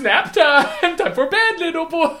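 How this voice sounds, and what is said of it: Silly put-on voice. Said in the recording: “silly voice time. It's a silly voice”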